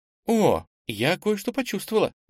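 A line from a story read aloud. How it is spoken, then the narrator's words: Sudden exclamation. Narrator (Russian): вдруг воскликнула Ира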